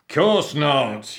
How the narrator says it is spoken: yelled the captain

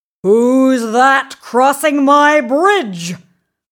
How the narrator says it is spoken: roared the big, hairy troll

